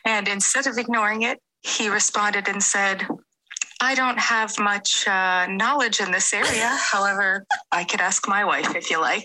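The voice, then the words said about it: American accent. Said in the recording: “Oh, I love the accent, by the way. ... Love the accent. ... all the way from the US of A.”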